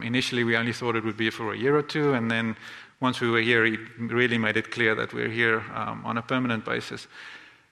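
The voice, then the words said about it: South African accent. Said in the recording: “The Lord moved us here from South Africa. That's where the funny accent comes from.”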